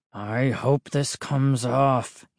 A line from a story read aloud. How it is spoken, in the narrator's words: he muttered